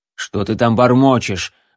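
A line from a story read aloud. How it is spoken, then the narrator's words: Sudden irritated question. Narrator (Russian): вдруг раздраженно спросил лучник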